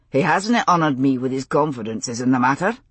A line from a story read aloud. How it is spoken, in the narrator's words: he said dryly